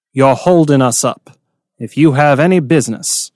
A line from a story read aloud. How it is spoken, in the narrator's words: Ruhaya said evenly